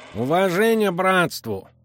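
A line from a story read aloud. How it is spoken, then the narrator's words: Strangely nasal voice. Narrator (Russian): Голос был странно гнусавым, будто бы у говорящего был заложен или поврежден нос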